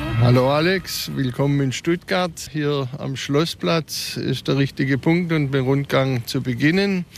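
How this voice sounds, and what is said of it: Swabian Stuttgart dialect. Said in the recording (German): “diesen schönen Stuttgarter Dialekt ... eine Honoration, Schwäbisch würde man sagen”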